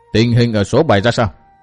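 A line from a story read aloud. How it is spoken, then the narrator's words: Cold question. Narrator (Vietnamese): Hàng tử khách lạnh lùng hỏi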